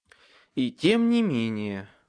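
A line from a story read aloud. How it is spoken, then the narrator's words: Muttered then sighed. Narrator (Russian): буркнул, а потом вздохнул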